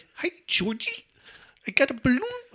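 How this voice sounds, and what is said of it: Grating Pennywise voice, Bill Skarsgård. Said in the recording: “With Bill Skarsgård, he has this like nails on a chalkboard like voice.”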